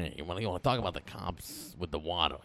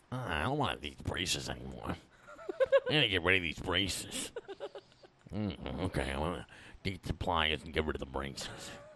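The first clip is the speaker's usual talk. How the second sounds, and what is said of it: Imitates another person's voice. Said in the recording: “I'm doing an impression of Kate's dad.”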